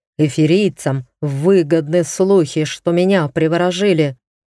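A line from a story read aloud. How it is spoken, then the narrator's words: Growled. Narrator (Russian): прорычал Дариан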